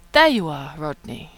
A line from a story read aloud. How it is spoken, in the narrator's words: she purrs